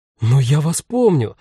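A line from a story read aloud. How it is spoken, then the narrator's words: Female exclamation. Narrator (Russian): воскликнула продавщица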